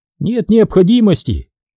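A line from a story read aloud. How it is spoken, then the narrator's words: Cheerful reply. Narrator (Russian): весело ответил мыслевестник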